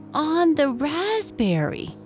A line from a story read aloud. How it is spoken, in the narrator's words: cried Anna